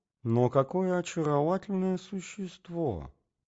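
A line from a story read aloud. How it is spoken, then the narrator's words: Delighted half-voiced murmur. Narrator (Russian): бормотал он в полголоса, тая от наслаждения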